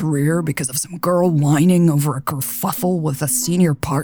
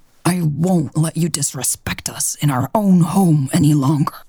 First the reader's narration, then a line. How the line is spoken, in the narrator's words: he hissed